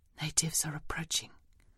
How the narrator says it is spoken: whisper

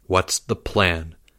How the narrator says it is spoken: Leo asked in a low voice

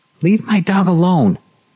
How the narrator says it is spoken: she shouted at him

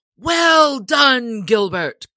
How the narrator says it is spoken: cried the sheriff right joyously

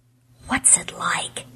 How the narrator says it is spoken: he whispered, as if he were asking something obscene

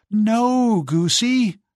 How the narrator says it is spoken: cried Giselle

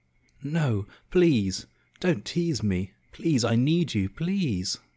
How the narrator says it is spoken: she whimpered

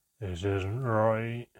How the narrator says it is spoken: Handan was moaning

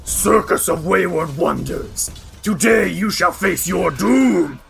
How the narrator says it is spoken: you hear one of them snarl and says

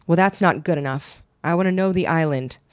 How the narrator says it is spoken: said

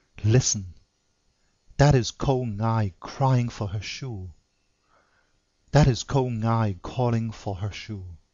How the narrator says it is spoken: do all the Chinese mothers in all the many-colored ways of Peking whisper to their little ones

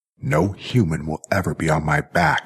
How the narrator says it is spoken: snarled Jackie

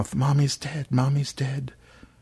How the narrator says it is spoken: Aaron said quietly

